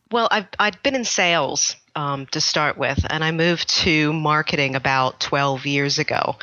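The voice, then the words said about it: American accent. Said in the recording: “is American, but is now based in the UK ... I've clearly not lost my accent entirely. So it does give me away”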